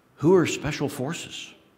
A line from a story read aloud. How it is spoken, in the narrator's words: Jordan whispered to his friends